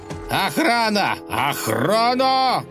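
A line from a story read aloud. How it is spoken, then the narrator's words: Very loud shout. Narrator (Russian): закричал государь так громко, что слышно было даже на улице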